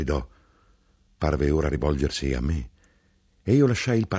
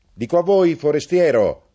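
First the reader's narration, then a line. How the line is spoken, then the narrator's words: Shouted. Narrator (Italian): gridò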